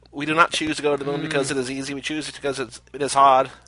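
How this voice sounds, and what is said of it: Imitates JFK's voice. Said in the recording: “I want to see now Cage as JFK.”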